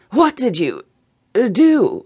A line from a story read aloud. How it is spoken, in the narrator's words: she asked in a hazy voice